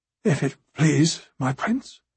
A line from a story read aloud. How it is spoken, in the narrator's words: mumbled Thaddeus Rowan